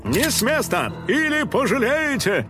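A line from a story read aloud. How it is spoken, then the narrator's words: Sudden nearby shout. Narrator (Russian): Вдруг крикнул кто-то совсем рядом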